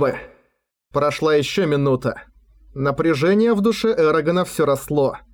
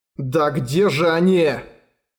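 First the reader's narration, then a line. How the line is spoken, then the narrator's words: Growling. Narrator (Russian): Прорычал он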